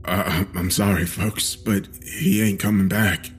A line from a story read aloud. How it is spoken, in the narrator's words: he said shakily